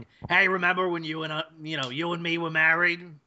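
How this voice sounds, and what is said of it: Imitates a cartoon character's voice. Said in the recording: “That was a good impression.”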